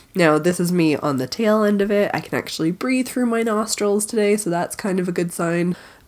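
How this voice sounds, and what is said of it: Congested, stuffy-nosed voice. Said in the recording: “as you can probably hear in my voice, is that I came down with a pretty epic cold”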